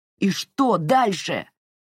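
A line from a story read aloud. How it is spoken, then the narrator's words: Yelling. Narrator (Russian): заорал он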